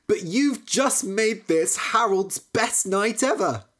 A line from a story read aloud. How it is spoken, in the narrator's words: cried